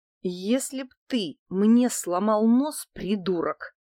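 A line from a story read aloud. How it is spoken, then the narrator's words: Hissed through teeth. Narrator (Russian): процедила я сквозь зубы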